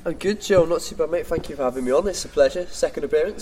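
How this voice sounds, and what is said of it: Slight accent from across the Pennines. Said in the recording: “does have a bit of an accent from the other side of the Pennines”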